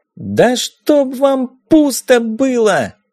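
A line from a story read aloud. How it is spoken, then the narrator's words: Yelling. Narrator (Russian): Это заорала Дейзи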